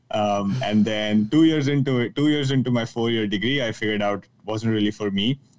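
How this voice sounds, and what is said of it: Indian English accent. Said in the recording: “if you haven't caught it from my accent yet, I'm joining in from Mumbai, India”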